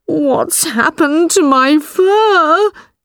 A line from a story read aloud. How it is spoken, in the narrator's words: cried